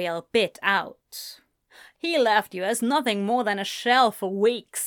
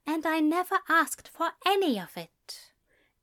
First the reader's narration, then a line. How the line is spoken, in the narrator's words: Ezra said quietly